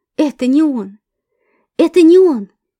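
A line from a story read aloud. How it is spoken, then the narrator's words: Delighted exclamation aloud. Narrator (Russian): восторженно воскликнула вслух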